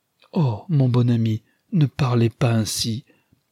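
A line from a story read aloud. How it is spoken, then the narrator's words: Pleading, dismayed exclamation. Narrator (French): s'écria Rosamond, suppliante, avec un regard qui exprimait la consternation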